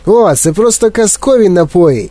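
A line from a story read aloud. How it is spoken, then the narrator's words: Shout. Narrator (Ukrainian): крикнув містер Вонка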